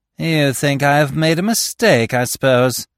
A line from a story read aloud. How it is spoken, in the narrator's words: he sneered